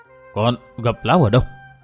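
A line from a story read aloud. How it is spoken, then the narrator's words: Nervous stammering quiet question. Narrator (Vietnamese): lắp bắp đôi môi hồi hộp hỏi khẽ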